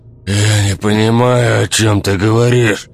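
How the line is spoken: Man moaning. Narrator (Russian): стонал мужчина

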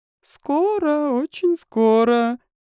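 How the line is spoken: Purring. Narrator (Russian): промурлыкала королева

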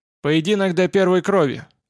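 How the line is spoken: Commanding announcement. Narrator (Russian): объявил конунг властным голосом

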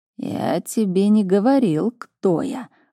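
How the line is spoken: Growl. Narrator (Russian): рыкнул он

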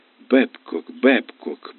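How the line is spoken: Muttering. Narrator (Russian): бормотала девушка за стойкой

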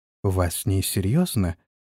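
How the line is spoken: Petulant whisper. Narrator (Russian): капризно сморщила личико, прошептала

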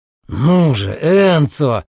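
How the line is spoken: Growled, fading away. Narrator (Russian): прорычал Дамиан, и его голос растворился в темноте

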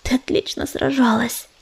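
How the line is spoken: Whispered. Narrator (Russian): прошептал он

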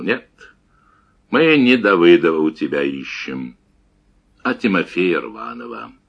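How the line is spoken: Calm, heavy, measured. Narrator (Russian): также спокойно и тяжело роняя слова, ответил

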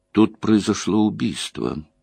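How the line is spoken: Grim announcement. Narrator (Russian): мрачно сообщил Хурин

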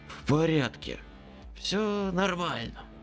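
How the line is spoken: Hoarse wheeze. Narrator (Russian): захрипел я

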